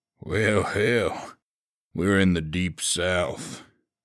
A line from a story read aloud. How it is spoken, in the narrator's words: he drawled